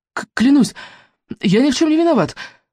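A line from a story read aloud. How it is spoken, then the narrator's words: Breathless stammering. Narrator (Russian): задыхаясь, пролепетал он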